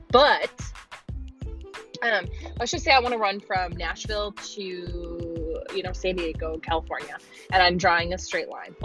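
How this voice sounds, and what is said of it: Minnesota-sounding accent, not Southern. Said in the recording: “I sound like I'm from Minnesota. And I don't sound like I'm from Nashville ... my accent just doesn't, like, allow me to be, like, country sounding”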